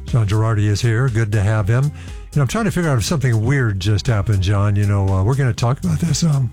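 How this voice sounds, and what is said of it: Hoarse, strained voice. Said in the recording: “Lost my voice for some reason.”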